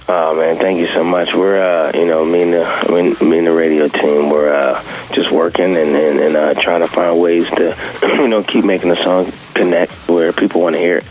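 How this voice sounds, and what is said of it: Deep, low morning voice. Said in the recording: “Are you trying to do Barry White there? ... My voice is typically a little higher, but this is my morning voice.”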